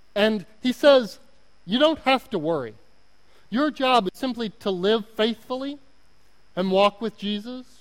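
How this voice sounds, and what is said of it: Oklahoma accent. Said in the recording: “My Oklahoma accent is really coming out right now.”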